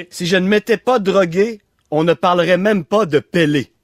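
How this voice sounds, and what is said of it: Put-on Limoilou Quebec accent. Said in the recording (French): “Avec un accent de Limoilou et de l'ancienne Lorette.”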